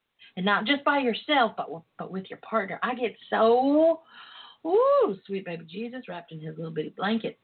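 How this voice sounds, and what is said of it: Twangy accent. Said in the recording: “my twang is coming out. When I start getting fired up about, passionate about what I, about this, my twang comes out.”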